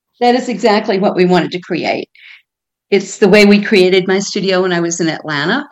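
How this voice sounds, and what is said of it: Southern American accent with drawl. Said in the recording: “I'm a Southern girl. ... your accent ... speak Arabic with a drawl”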